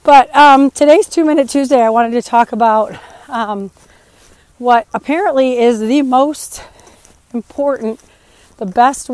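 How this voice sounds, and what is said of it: Strained, partly lost voice. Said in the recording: “As you can probably hear, my voice is crazy ... I lost my voice over the weekend somehow and it's just not coming back”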